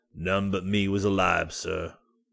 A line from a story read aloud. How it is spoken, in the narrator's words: he answered in a solemn voice